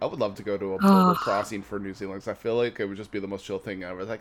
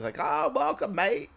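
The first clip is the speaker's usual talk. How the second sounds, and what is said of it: Put-on Australian accent. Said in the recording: “was that Australian or New Zealand? ... I'm pretty sure that was an Australian accent.”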